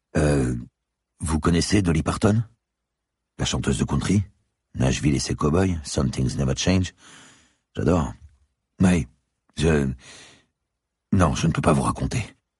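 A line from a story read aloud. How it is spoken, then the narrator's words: Hesitant policeman. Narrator (French): répondit le policier d'un ton hésitant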